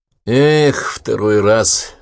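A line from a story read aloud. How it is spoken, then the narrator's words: Sigh. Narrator (Russian): вздохнул бывший сотрудник ИНО Александр Строгин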